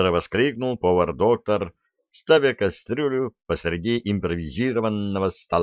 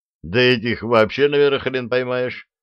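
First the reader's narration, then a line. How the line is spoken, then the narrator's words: Short laugh. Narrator (Russian): хохотнул Степаныч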